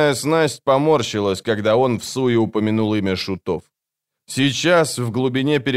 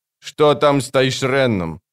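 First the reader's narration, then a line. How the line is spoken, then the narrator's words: Sharp question. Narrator (Russian): резко спросил капрал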